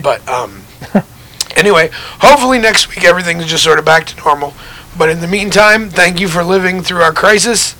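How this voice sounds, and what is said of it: Damaged, rough-sounding voice. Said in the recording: “my voice is fucked up tonight”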